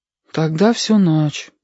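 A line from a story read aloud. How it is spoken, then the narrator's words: Sad. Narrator (Russian): печально сказал Сашка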